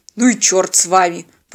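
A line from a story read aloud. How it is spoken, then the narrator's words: Regretful grumble. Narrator (Russian): проворчал капитан, уже жалея, что ввязался в эту авантюру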